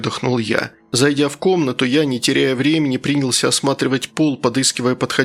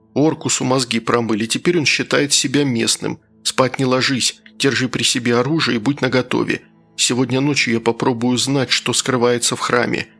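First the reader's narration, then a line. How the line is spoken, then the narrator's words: Quiet. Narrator (Russian): тихо сказал я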